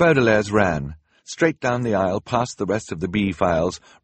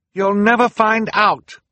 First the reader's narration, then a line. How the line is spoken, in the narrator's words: Violet cried